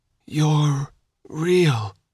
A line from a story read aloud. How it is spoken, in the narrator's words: he croaked